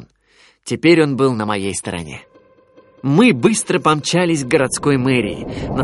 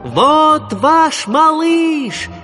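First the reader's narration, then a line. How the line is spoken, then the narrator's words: Shouting at full strength. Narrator (Russian): закричал я изо всех сил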